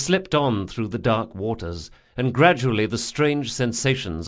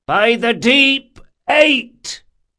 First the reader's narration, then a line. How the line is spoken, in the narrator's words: came a leadsman's shout